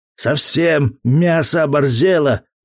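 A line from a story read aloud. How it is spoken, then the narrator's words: Wild roar. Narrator (Russian): взревел Матвей дурным голосом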